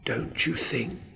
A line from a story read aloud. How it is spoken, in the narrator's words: whispered